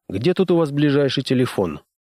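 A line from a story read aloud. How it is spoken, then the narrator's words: Casual question. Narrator (Russian): Небрежным тоном поинтересовался он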